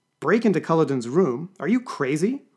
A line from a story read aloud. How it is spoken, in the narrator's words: exclaimed Violet